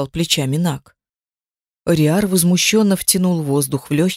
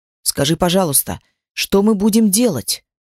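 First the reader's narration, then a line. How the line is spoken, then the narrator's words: Irritated speech. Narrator (Russian): раздраженно проговорил эльф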